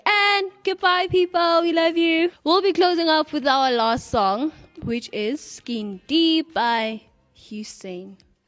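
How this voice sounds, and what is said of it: Put-on unidentified accent. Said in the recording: “As I change my accent to I don't know what it is. ... It's an accent ... It's just an accent”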